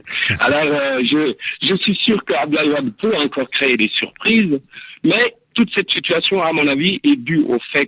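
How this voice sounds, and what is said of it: Belgian-sounding French accent. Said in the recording (French): “on m'attribue souvent un accent belge”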